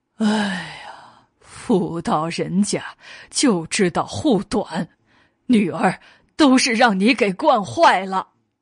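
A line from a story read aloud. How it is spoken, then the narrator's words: Sighing. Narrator (Chinese): 韦德玄叹道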